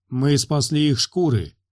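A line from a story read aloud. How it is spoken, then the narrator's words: Growled. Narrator (Russian): прорычал Рорк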